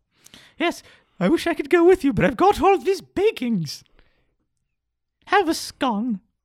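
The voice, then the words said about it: Cliché English lady accent. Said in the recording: “My mom's accent is weird, oddly cliche... a proper English lady”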